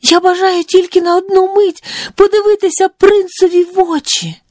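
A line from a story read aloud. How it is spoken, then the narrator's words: Bold exclamation. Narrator (Ukrainian): прогнавши усяке зніяковіння та страх, вигукнула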